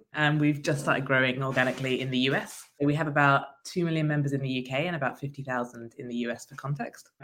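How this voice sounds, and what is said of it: British accent. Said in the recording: “Organize is very big in the UK. That's where we started, as you can probably tell by my accent.”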